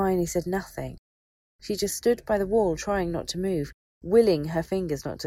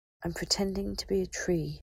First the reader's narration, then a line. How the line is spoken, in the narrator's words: she thought faintly to herself